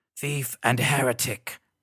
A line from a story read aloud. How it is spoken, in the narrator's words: rasped the grim-faced high priest